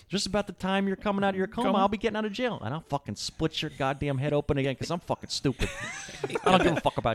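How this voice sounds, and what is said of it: Put-on Chicago accent. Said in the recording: “Get that Chicago accent. ... So good.”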